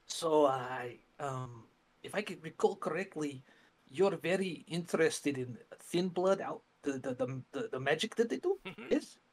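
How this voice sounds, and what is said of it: Lowered, quieter voice. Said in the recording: “I'm going to kind of lower my voice.”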